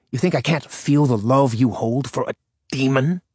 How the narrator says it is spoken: He spat that last word at her

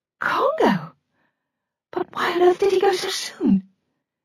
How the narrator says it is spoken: Her voice had faded to a whisper

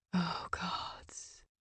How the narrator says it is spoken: he whispered against her spine

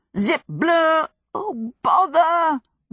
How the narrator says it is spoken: wailed Sophie

